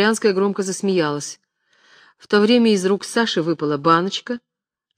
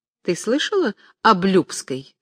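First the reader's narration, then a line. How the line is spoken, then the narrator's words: Plain. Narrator (Russian): сказала Дерезубова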